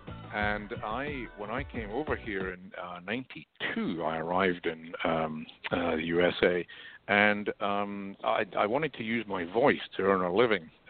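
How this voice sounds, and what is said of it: Scottish accent. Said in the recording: “I notice an accent there, and it's not Southern, and it's not Southeastern Washington ... you're right about the accent. I'm originally from Scotland”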